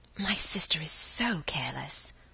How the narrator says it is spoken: whispered Margaret

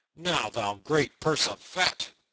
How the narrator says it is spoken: cried Little John

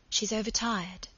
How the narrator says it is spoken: Margaret whispered

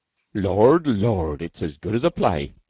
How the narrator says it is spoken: chuckled the attentive Keat

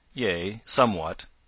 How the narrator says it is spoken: answered dryly

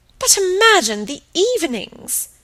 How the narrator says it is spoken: exclaimed her aunt

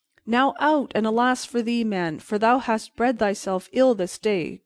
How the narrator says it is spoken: cried the beggar

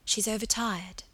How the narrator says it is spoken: Margaret whispered

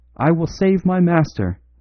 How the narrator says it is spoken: he cried, his eyes blazing maniacally

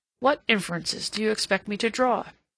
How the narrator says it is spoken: he said sharply

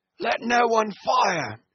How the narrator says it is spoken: shouted Brown

